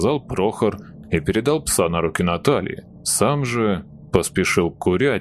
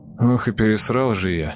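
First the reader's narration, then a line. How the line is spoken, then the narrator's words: Guilty grumble. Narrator (Russian): буркнул он виновато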